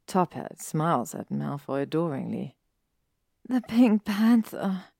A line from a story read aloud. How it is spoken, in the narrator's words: he sighs